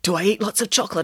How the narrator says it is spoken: asked Nanny Piggins excitedly

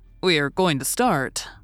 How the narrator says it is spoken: said

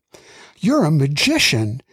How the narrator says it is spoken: exclaimed

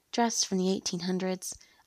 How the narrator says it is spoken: I mumbled to myself

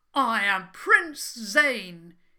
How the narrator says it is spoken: he called out loudly

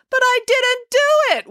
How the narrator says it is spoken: wailed April

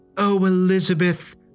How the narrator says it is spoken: cried Greta

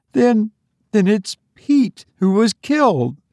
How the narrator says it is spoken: she gasped

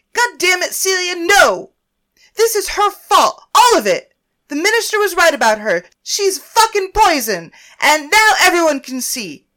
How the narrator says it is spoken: Naomi screamed

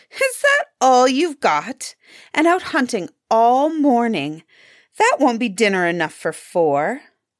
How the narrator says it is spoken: Heli's wife saw the grouse, she cried out petulantly

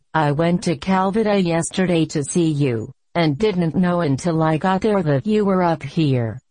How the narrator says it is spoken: the doctor chuckled

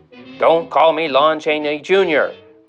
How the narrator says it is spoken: growls Lon Chaney Jr

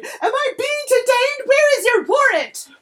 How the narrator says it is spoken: scream

